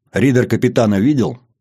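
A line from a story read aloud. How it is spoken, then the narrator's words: Stern steely voice, captain. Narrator (Russian): Строгим голосом с нотками стали спрашивает капитан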